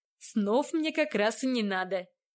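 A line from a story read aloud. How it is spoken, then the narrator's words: Laughing. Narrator (Russian): рассмеялся Владислав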